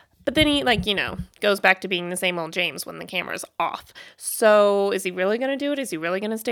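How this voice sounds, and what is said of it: Usual voice. Nothing is said of it.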